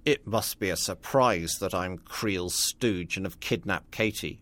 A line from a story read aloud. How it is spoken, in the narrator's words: Royce sneered